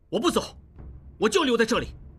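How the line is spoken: Angry. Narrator (Chinese): 应季怒气冲冲地说

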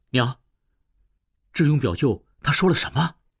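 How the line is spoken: Hurried question. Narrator (Chinese): 何春急忙问

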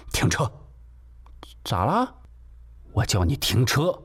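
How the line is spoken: Angry. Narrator (Chinese): 西门锁听这话，终于愤怒了

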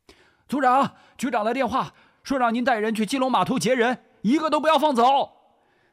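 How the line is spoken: Shouting from behind. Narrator (Chinese): 翁连旺在后面喊着

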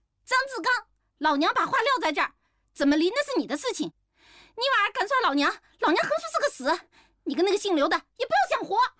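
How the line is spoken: Loud shouting. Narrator (Chinese): 李丽大声地喊

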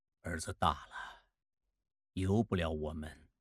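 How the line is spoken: Sighing with emotion. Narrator (Chinese): 孟梅感叹道

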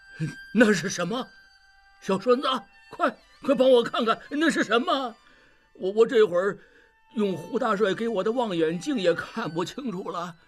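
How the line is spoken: Calling out. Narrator (Chinese): 志庸 叫道

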